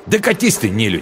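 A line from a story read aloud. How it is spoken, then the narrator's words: Angry snapping retort. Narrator (Russian): зло огрызнулся он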